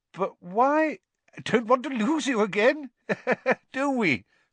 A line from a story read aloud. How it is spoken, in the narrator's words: said Fudge with a hearty laugh